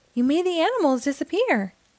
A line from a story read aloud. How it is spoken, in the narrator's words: Leah exclaimed